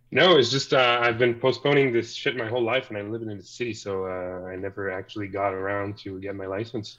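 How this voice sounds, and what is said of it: Canadian accent. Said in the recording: “You're so Canadian... if the accent didn't let me know”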